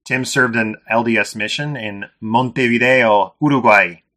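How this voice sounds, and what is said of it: Put-on accent on place names. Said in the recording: “How's that for an accent? ... Yeah, that's pretty good.”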